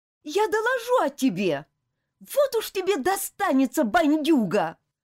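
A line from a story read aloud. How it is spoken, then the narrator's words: Angry shout. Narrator (Russian): Гневно выкрикнула Элизабет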